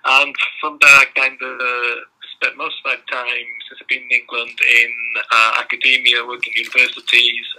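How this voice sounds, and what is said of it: Belgian accent. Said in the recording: “originally I'm from um, Belgium, as you can probably that from my accent”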